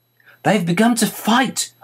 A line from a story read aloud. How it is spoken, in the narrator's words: I cried